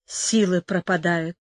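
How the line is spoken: Weak wounded whisper. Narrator (Russian): прошептал Мануэль, у которого была в крови голова и поранены руки и щеки

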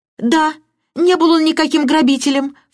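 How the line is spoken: Crying out. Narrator (Russian): вскрикнула мисс Баннер

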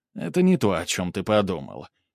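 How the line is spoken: Snorting. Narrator (Russian): Снегирь хмыкнул

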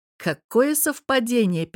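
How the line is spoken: Interrupting with a snort. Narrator (Russian): перебил хмыкнул

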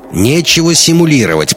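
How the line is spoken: Old woman snapping. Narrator (Russian): прикрикнула старуха

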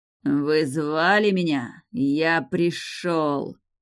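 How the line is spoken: Hissing. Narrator (Russian): шипели раскаленные иглы

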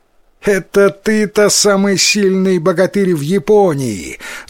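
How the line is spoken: Laughing. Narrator (Russian): засмеялся Тикаратаро

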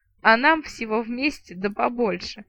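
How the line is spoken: Gnome chuckle. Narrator (Russian): хохотнул гном

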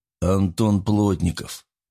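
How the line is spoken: Through gritted teeth. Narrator (Russian): процедил гость

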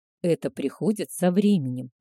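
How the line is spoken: Soft purr. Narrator (Russian): мягко промурлыкал Альфа

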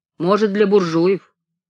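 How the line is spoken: Laughing. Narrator (Russian): Женька засмеялся

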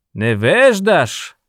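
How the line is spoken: Yelled. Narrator (Russian): заорал Монев

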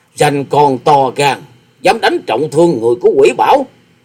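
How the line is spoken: Old man's snort, shout. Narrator (Vietnamese): lão quái nhân chợt hừ một tiếng rồi quát

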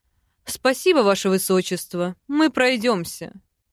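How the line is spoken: Dry reply. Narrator (Russian): Сухо ответил ректор

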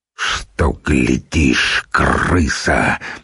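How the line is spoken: Furious bass growl. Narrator (Russian): бешеным басом прорычал Нурман

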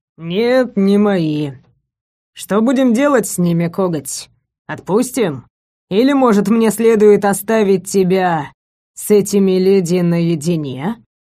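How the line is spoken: Impatient wolf growl. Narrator (Russian): Волк рыкнул, нетерпеливо

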